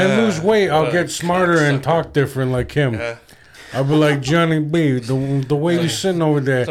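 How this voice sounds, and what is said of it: Usual voice. Nothing is said of it.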